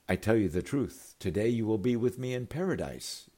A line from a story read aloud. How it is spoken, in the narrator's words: Jesus said